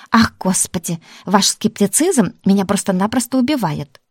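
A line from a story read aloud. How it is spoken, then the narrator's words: Exclamation. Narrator (Russian): воскликнула тетка Марфа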